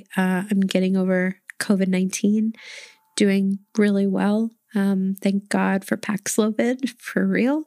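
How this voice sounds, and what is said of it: Slightly rough, worn-out voice. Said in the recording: “I know my voice sounds a little different today ... I just sound a little road hard today”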